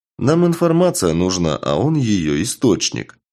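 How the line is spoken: Plain. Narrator (Russian): ответил Карат

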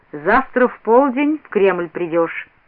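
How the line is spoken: Sudden stern command. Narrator (Russian): вдруг строго сказал Иван Данилович, и, приказал

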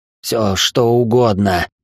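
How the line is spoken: Rasped. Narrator (Russian): прохрипел я

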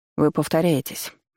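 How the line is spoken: Irritated, curt. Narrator (Russian): раздраженно бросил он

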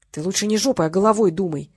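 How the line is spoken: Angry mutter. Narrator (Russian): сердито буркнул Олег

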